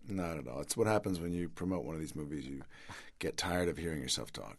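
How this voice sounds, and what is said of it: Raspy, slightly hoarse voice. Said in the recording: “my voice is a little raspy,... I'm a little under the weather”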